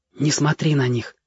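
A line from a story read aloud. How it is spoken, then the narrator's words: Whispered. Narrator (Russian): прошептал Ярик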